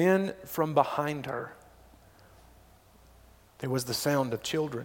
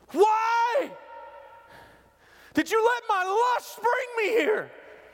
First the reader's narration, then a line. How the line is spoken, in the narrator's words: she yelled